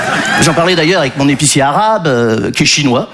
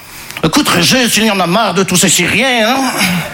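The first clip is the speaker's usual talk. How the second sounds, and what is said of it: Put-on Belgian French accent. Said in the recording (French): “je prends l'accent belge”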